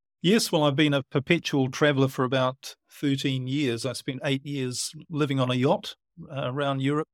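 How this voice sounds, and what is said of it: New Zealand accent. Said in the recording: “you've got a Kiwi accent.”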